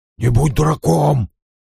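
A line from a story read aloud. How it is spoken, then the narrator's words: Whispered. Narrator (Russian): прошептал ему министрель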